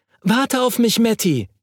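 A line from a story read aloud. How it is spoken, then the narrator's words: Calling out. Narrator (German): rief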